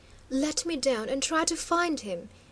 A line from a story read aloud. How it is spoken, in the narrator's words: he eagerly begged, as one might plead for a great boon